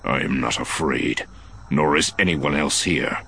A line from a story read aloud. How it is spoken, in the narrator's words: Talon growled